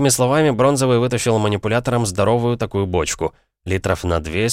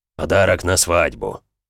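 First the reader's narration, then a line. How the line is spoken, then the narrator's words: Solemn proclamation. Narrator (Russian): торжественно провозгласил он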